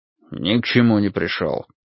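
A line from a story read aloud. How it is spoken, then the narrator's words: Grumbled. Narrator (Russian): буркнул Финли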